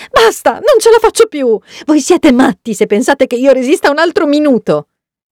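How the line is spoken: Sudden exasperated shriek. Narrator (Italian): sbotta e strilla all'improvviso

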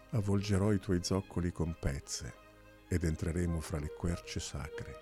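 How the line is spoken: Plain. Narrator (Italian): gli disse

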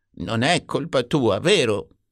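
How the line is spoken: Plain. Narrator (Italian): disse

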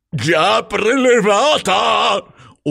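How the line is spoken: Desperate yelling. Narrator (Italian): urlò il signor Troll disperato

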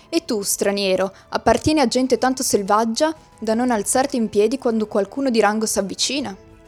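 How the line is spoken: Brusque voice. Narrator (Italian): disse con voce brusca

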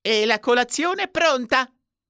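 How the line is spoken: Shouted from next room. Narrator (Italian): gridò Warren dalla stanzina a fianco

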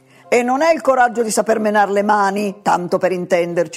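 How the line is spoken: Sermonizing outburst. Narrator (Italian): sbottò Adolfo a mo' di predica

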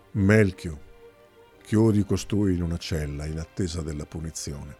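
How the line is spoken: Sighing command. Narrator (Italian): Ceteo sospirò e diede un ordine

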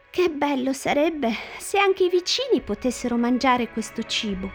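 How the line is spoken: Sighing. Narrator (Italian): Bibi, che era gentile come Hassan, sospirò e disse

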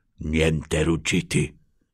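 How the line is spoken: Whispered. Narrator (Italian): bisbigliò il signor Troll

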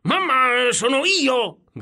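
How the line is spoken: Shouted. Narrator (Italian): gridò Piero

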